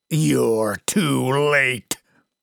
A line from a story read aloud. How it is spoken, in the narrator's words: a deep voice croaked